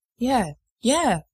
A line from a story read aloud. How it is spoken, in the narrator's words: Jensen stammers